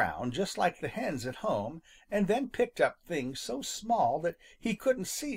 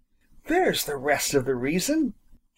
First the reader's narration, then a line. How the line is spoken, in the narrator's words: he suddenly exclaimed in triumph